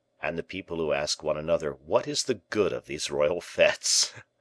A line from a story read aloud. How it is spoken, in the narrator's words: continued the Bishop of Vannes, laughing with his false smile